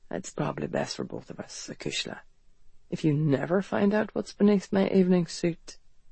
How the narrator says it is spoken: he murmured

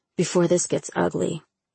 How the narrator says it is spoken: Michael whispered, hovering closer

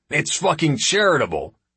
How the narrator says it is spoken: snaps Chindelin

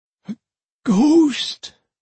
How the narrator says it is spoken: Piss Bucket gasped

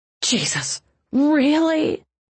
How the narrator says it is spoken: Mavis moaned

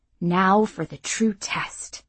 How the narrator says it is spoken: she muttered

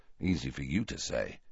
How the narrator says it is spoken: muttered Harry

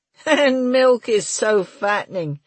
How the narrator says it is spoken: laughed Murray

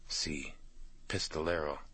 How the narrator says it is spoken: Cholo said quietly

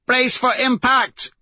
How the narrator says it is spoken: Mustang shouts over it

